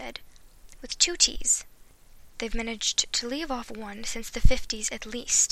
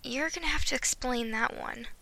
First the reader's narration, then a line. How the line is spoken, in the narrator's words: he sighed